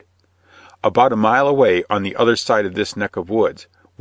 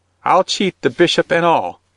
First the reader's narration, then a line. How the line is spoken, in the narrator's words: cried the woman quickly